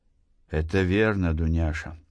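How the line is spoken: Sighing. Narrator (Russian): вздохнул Артем

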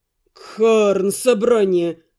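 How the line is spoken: Groaned. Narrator (Russian): простонал водник

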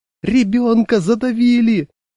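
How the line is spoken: High-pitched shout. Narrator (Russian): закричал тонким голосом

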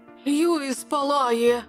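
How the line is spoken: Exclaimed. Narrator (Ukrainian): вигукнув

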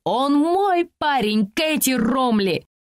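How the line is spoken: Shrieking. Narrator (Russian): завизжала она

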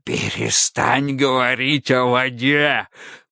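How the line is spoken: Hoarse rasp. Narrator (Russian): прохрипел Автоматей

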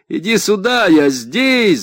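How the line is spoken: Shouted back. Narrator (Russian): закричал я в ответ

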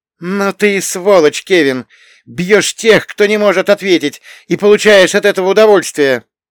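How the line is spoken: Loud, through partition. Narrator (Russian): Громко высказался через перегородку мой сосед

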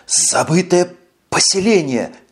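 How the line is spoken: Stammering with excitement. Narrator (Russian): Заикаясь от волнения, выдавил он

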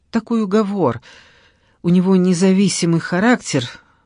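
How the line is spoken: Pained sigh. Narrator (Russian): с болью вздохнув, сказала Алла

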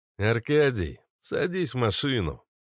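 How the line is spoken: Weary reply. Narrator (Russian): устало ответил Марио

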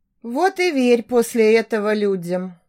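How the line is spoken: Sigh. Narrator (Russian): вздохнула Даша

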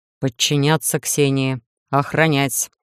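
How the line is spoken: Menacing command. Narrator (Russian): грозно приказал, кажется, голему, да, Иден

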